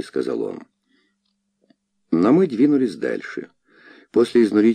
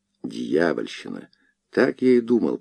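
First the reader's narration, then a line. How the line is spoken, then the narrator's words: Muttering. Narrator (Russian): пробормотал он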